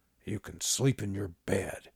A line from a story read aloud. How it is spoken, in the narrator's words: Pa muttered, disgust written in his posture